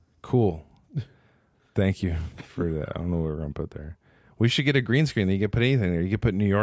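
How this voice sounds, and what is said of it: Usual voice. Nothing is said of it.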